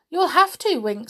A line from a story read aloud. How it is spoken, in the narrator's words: said Molly